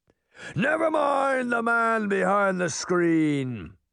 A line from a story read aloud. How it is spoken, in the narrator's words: the head bellowed